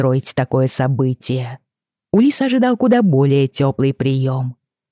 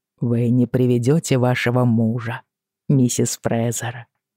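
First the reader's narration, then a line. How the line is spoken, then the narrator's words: Quiet question. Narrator (Russian): спросил он тихо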